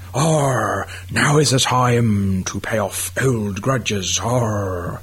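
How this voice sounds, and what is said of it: Pirate voice. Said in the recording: “do a pirate voice”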